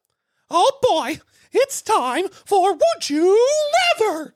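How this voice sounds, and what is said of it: Cartoon mouse character voice. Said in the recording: “the Mickey voice”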